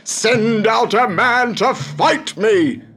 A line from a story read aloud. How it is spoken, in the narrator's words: shouted